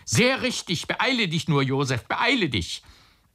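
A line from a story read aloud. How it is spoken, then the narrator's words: Shout. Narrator (German): schrie der Onkel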